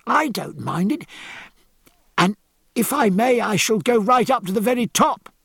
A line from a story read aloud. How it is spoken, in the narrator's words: cried George